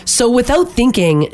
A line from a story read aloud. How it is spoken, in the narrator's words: she said in a British accent